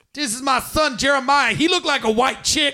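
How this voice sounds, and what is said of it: Put-on Black woman character voice. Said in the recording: “doing this voice for Jeremiah's mother ... doing a black woman voice”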